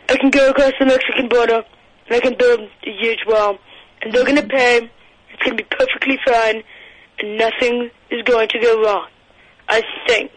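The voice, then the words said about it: Good impression of a politician. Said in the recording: “It's a very good impression. Good. That's pretty good.”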